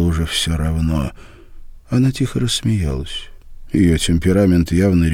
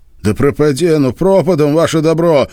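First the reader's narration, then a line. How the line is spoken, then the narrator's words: Yell. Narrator (Russian): заорал он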